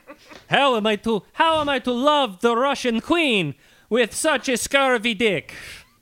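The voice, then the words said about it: Put-on Russian-Italian accent. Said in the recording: “Man, I used to be a lot better at accents... Rasputin in my head, speaking English with that accent... it's a hybrid between Russian and Italian”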